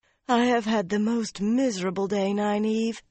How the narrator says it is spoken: she sighed

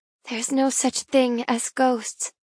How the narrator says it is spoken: I murmur out loud, my mouth curling up in satisfaction

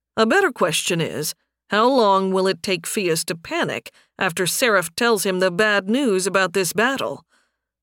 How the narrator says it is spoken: Sunstorm scoffed

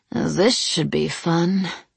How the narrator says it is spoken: I groaned theatrically and muttered

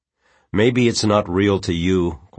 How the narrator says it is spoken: Quentin said a little stiffly

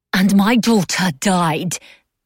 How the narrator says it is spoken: Mab spat

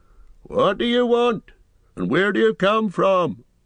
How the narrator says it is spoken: he asked gruffly

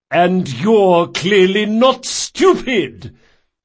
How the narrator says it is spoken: Chains cried with a glee

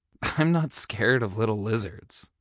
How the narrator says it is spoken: he scoffed

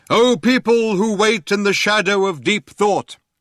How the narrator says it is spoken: he cried out

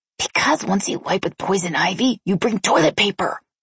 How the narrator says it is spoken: she hissed

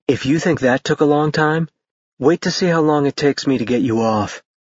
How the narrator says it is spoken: he said in a silky voice

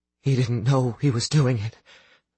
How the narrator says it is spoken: Astrid said in a low, unsteady voice

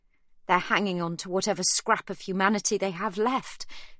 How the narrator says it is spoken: Sibby says, bitterly

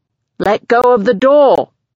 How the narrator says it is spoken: he yells

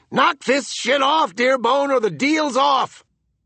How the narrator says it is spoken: Buck and Coolman were yelling, too

